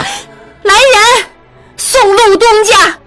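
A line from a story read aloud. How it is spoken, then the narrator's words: Furious shout. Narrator (Chinese): 玉汉怒极了，大声喊道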